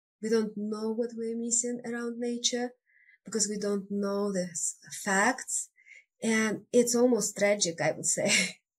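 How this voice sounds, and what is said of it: Russian accent. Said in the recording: “where is that accent from? ... I was born in Siberia. It's a huge, vast, cold part of Russia.”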